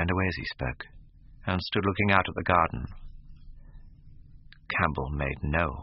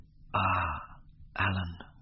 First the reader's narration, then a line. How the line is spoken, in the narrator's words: murmured Dorian with a sigh